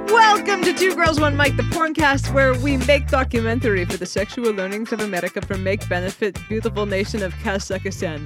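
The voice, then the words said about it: Exaggerated fake Eastern European accent. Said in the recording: “like a half racist Italian ... that was a Borat impression ... this accent ... a bad European accent”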